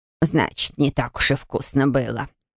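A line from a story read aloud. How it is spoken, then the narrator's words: Offended mutter. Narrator (Russian): обиженно пробормотал Пайба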